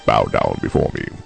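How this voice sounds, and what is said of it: Put-on demon voice. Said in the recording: “I am feeling my inner demon voice.”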